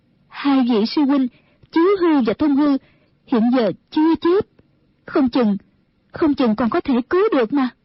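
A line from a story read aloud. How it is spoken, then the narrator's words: Trembling reply. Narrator (Vietnamese): Mẫn Như run run đáp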